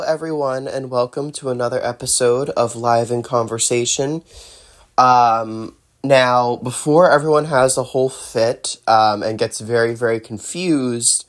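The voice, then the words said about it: Nasal, congested voice from a cold. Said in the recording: “I do have a bit of a cold ... my voice is a little nasally or, you know, just sounds different ... my nose being a little stuffy and, you know, a little bit of a sore throat”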